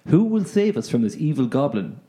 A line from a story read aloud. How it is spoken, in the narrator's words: asked Cormac